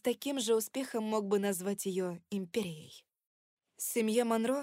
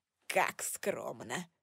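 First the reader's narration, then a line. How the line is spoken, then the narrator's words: Snorting. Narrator (Russian): фыркнул он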